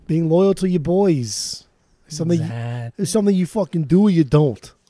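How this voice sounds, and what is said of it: Put-on Boston accent. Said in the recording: “that was Boston over here ... That was my Bastion accent ... One of the grossest accents I've ever heard ... it's a rough accent”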